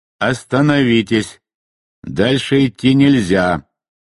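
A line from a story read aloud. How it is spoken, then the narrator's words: Thunderous booming voice. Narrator (Russian): прогремел громоподобный голос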